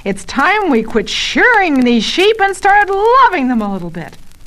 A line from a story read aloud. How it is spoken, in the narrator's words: Barton yells